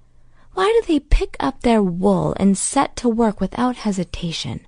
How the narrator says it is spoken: Holston sighed

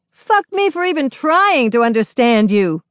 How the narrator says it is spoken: A woman under a streetlight shouts at no one

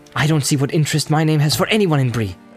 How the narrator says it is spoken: said Frodo angrily

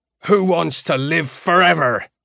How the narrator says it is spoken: Iota roared, and a flat echo came back from the tiles

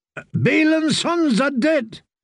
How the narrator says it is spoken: cried Rafe the limper

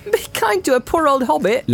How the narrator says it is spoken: laughed Frodo

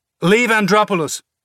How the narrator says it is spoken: the boy shouted

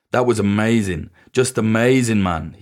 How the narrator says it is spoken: he said

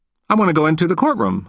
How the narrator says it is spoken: I said firmly

